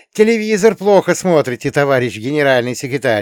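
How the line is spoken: Snide declaration. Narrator (Russian): ехидно заявил я

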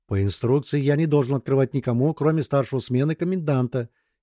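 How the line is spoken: Quiet, flustered. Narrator (Russian): тихо произнес растерявшийся напарник

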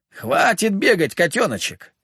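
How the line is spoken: Barked, out of breath. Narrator (Russian): рявкнул Коловрат, и я с удивлением услышал одышку

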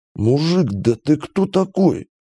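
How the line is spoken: Hoarse wheeze. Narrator (Russian): просипел капитан

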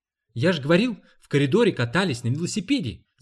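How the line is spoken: Shouted. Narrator (Russian): закричал Роба

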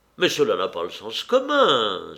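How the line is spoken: Astonished exclamation. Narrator (French): s'écria Vronsky étonné

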